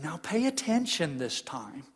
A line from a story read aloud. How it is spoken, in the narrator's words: sigh theatrically and say